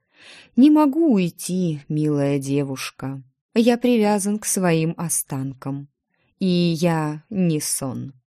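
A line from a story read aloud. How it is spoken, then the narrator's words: Sad stranger. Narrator (Russian): грустно сказал незнакомец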